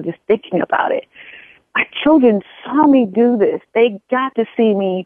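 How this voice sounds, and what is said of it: Emotional, choked-up voice. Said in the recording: “I'm sorry, I get emotional”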